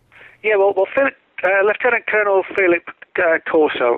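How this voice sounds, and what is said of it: Put-on English accent. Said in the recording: “That was my English accent then.”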